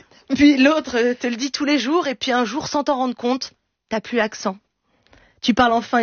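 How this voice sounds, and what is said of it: Usual voice. Nothing is said of it.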